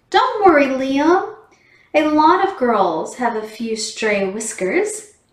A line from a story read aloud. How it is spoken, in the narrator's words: She giggled as she explained